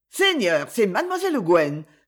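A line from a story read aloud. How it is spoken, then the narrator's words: Maid exclaiming. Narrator (French): s'exclama la femme de chambre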